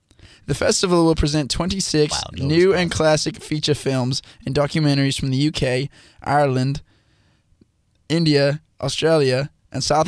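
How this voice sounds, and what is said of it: Put-on British accent. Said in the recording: “I'm going to do my best to read it in a British accent.”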